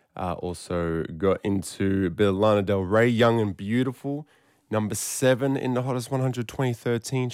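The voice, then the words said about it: Hoarse voice. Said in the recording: “You can kind of hear it in my voice... I was yelling, screaming. That's why I'm a bit hoarse”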